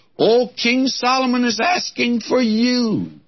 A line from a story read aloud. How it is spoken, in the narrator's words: someone comes to her excitedly and says